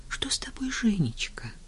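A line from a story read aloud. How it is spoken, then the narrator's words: Whispered reply. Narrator (Russian): шептала в ответ Таня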